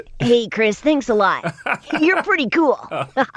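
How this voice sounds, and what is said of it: Ash character voice. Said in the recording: “it sounds a lot different from my voice ... doing the voice of Ash”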